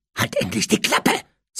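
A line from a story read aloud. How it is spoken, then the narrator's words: Hissed. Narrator (German): zischte Harry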